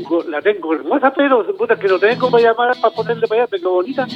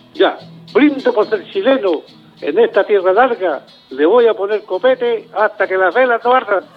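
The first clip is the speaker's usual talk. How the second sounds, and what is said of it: Announcer-style voice. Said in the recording (Spanish): “habla con voz de locutor”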